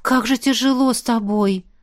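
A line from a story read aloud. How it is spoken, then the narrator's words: Loud exasperated exhale. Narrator (Russian): выдохнула я шумно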